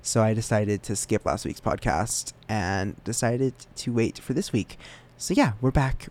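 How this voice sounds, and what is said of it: Slightly rough, off voice. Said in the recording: “my voice is still a little bit cranky, a little bit off, but it's better than it was last week”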